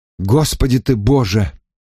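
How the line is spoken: Disgusted exhale. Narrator (Russian): с отвращением выдохнул я

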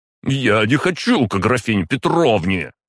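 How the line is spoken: Near howl. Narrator (Russian): чуть ли не взвыл Толстой

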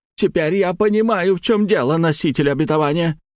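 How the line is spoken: Accusing exclamation. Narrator (Russian): обвиняюще воскликнула обнаженная красавица

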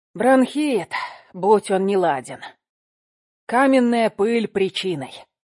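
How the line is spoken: Hoarse, winded wheeze. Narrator (Russian): просипел он, отдышавшись

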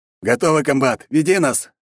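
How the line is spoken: Barked. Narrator (Russian): рявкнул Шатун

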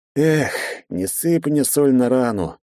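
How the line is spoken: Partner's sad sigh. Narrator (Russian): печально вздохнул напарник

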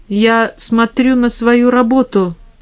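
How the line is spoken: Calm reply. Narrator (Russian): спокойно ответил Микеланджело

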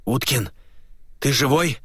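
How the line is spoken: Hoarse wheeze. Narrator (Russian): прохрипел Глеб

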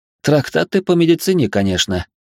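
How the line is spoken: Snorted. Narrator (Russian): хмыкнул

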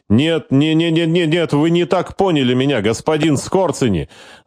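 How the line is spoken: Panicked yell. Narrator (Russian): заорал агент, понимая, что там в подвале с ним уже будут говорить совершенно по-иному

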